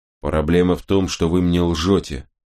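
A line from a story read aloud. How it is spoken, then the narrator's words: Plain. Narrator (Russian): ответил я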